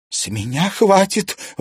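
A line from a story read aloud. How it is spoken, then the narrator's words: Exasperated exhale. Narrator (Russian): выдохнула Алена Александровна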